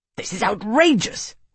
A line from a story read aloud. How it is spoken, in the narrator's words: Maximus sputtered, his words oddly flat-sounding within the windcrafting that kept their conversation private